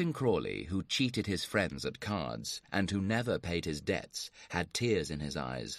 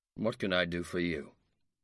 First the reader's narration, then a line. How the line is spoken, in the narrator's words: inquired coldly